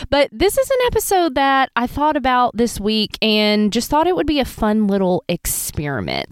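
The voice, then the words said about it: Voice sounds sick with a cold. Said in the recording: “has a cold. If you can hear that in my voice”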